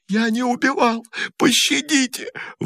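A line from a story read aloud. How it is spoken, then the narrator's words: Terrified sobbing. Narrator (Russian): в ужасе рыдал лейтенант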